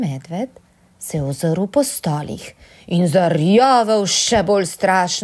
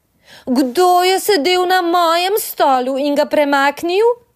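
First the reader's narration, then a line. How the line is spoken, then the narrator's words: Thin mouse-like squeak. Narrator (Slovenian): Miško pa je zacvilil tenko kot miš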